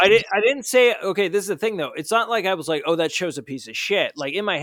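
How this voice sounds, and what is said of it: Usual voice. Nothing is said of it.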